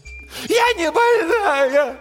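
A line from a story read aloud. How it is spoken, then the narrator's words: Shouts turning into sobs. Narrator (Russian): Крики переходят в рыдания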